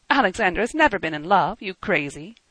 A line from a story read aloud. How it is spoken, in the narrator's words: He laughed again